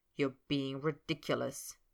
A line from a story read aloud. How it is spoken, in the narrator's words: Snape grumbled